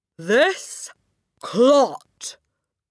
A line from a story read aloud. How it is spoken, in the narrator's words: boomed the headmistress